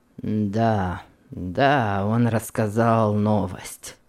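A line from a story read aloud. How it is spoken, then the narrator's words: Gloomy mutter. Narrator (Russian): пробормотал Флек угрюмо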